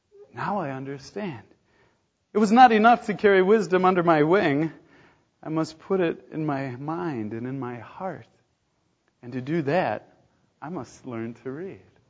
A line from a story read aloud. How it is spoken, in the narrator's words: she sighed